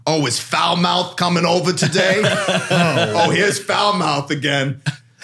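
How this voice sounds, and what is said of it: Raspy, smoker-like New York woman's voice. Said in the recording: “She sounds like a smoker, by the way. ... Sounds like a New Yorker.”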